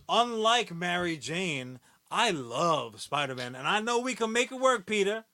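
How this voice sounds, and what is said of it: Mary Jane character voice. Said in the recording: “your Mary Jane voice ... Mary Jane impersonation”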